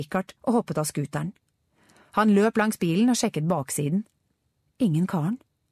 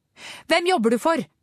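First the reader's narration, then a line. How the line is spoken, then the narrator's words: Shouted. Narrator (Norwegian): ropte Angela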